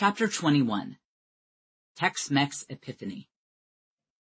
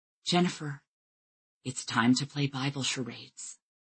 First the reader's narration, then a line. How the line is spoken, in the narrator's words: she leaned in close and whispered